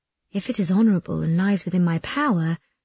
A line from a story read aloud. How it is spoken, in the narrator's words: said Caterina gently